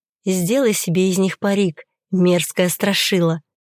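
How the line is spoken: Whisper in the ear. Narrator (Russian): прошептала ей в ухо

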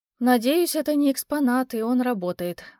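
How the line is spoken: Sigh. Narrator (Russian): вздохнула

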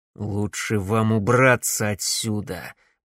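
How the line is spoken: Muttered through gritted teeth. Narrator (Russian): процедил сквозь зубы Макс

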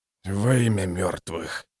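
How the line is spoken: Whispering. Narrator (Russian): прошептал черствый

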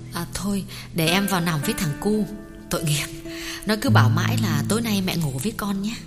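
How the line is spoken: Soft, gentle. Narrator (Vietnamese): Tuyết nhỏ nhẹ bảo

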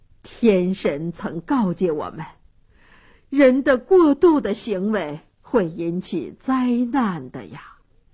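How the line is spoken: Elders sighing. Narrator (Chinese): 这些长老知道国王决心已定，再说也救不了安提格涅，都叹息地说

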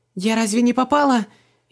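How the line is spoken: Frightened girl's babble. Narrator (Russian): испуганно пролепетала девушка

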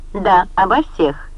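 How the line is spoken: Sharp reply. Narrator (Russian): резко ответила

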